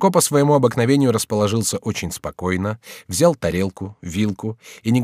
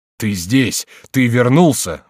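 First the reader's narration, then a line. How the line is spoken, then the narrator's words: Exclaiming. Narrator (Russian): воскликнул Генрих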